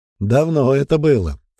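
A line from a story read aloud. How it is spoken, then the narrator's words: Snort. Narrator (Russian): хмыкнул он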